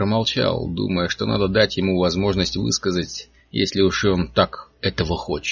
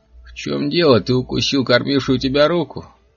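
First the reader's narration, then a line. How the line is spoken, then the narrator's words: Cheerful laugh. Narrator (Russian): Человек весело засмеялся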